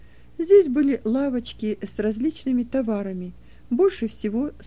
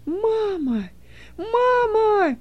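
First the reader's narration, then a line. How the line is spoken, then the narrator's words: Loud cry. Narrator (Russian): громко вскрикнул он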